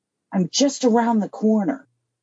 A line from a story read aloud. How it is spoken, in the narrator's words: said in a harsh tone